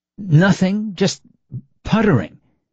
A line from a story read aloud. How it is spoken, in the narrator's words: sputtered, stumbling slightly on the labial consonant